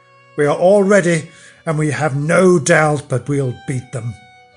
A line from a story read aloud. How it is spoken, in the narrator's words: The Connaught hosts cried out